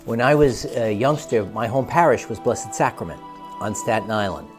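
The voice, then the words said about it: New York accent. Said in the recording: “we should have someone put the subtitles so you can understand the New York accent.”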